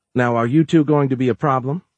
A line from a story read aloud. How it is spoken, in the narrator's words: she asked kindly